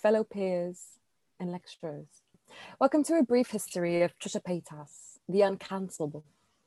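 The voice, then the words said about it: Put-on British accent. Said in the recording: “I'm debating whether or not I should do this entire thing in a British accent... I'm British now”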